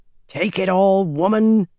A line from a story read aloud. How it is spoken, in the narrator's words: the jailer growled